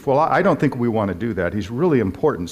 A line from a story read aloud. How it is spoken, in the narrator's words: said the cop